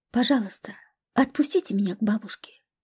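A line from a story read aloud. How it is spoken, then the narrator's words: Quiet. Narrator (Russian): проговорила она тихо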